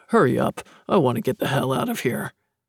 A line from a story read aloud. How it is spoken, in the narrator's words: grumble